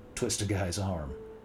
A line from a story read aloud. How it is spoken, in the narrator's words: said Mike, chuckling